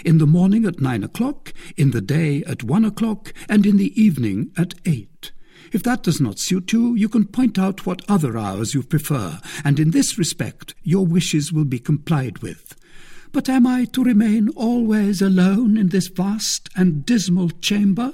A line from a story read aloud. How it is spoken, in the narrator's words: asked